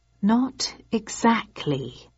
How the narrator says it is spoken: I said slowly

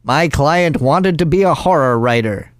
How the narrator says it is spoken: Chuckles said simply

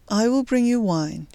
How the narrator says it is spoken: said in a restrained voice

